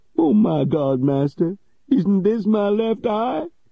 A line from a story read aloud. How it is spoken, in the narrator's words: cried the old man